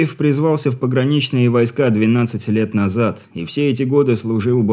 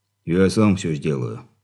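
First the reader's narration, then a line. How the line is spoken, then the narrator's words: Guilty voice. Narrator (Russian): Виноватым голосом отозвался ординарец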